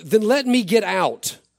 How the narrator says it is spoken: she exclaimed

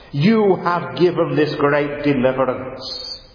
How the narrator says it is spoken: he cried out to the Lord

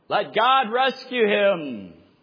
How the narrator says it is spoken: Another heckler yelled out

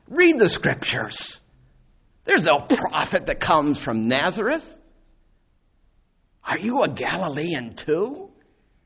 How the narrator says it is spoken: the religious leader scoffed

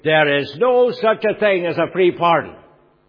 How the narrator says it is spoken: he was shouting down the line to me

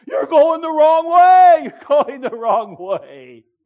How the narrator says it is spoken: his own player, was hollering at him

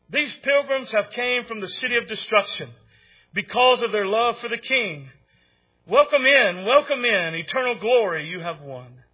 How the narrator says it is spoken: The shining ones called out

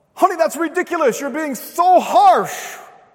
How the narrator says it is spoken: And she may shout out

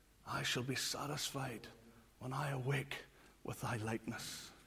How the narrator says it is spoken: three times whispered

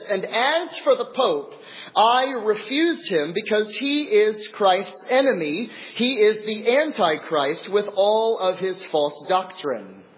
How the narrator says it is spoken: lifted up his voice even louder and said

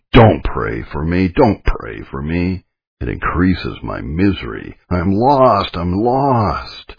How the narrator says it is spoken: she mocked me in the most terrific manner, repeatedly exclaiming

